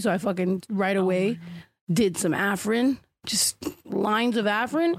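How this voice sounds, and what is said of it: Congested, rough sick-sounding voice. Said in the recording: “sorry that my throat sounds like this too... I'm sick. My nose was stuffy... dripping down your throat, and then you sound like this”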